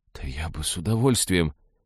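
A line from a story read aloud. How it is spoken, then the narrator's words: Shocked mumble. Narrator (Russian): по-прежнему находясь в шоке, пробормотал я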